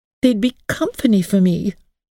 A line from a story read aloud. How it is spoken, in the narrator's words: pleaded Emily